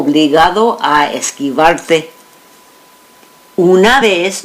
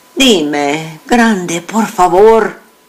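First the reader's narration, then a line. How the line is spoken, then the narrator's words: Mother pleading. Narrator (Spanish): suplicó mi madre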